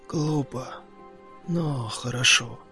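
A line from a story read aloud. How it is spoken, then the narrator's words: Muttered. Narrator (Russian): пробормотал он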